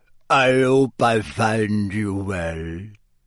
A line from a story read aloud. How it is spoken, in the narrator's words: said Madam Maxine in a deep voice